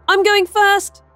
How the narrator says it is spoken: yelled Starla

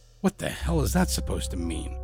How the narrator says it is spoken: I muttered

